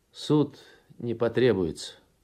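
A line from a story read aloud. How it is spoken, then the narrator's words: Calm objection. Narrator (Russian): спокойно возразил парень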